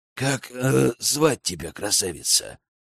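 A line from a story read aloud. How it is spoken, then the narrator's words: Hoarse voice. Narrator (Russian): хрипло проговорил Аркан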